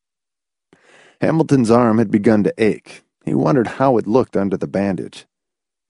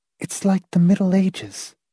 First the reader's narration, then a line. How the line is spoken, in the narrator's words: Marcia said quietly